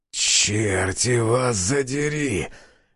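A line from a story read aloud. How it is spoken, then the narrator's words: Hoarse voice. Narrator (Russian): Осипшим голосом произнес я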